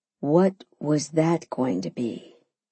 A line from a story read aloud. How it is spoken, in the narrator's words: he asked calmly